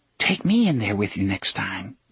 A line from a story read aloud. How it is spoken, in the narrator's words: she whispered